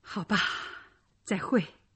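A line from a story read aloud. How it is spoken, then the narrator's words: Sighing. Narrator (Chinese): 莱昂叹口气说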